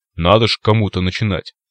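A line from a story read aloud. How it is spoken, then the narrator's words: Snort. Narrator (Russian): хмыкнул Циклоп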